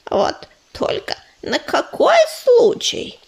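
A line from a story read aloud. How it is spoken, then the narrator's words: Grumbling. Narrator (Russian): проворчал Корявый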